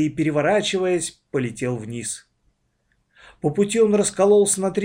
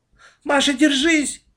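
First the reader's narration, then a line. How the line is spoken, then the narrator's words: Shouted. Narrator (Russian): закричала Аня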